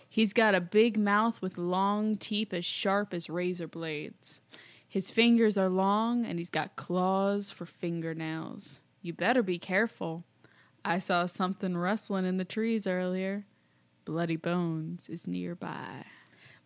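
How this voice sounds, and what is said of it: Creepy old grandpa storytelling voice. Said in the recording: “We're just going to go with our creepy grandpa voice instead, which I think you did very well”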